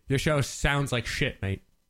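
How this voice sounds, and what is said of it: Put-on British accent. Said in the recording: “Was that your British accent? ... It's my Ash accent.”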